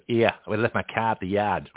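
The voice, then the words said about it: Put-on Boston accent. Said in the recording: “Sounds like Boston accent.”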